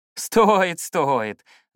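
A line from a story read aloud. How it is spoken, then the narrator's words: Ringing laughter. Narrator (Russian): звонко засмеялась она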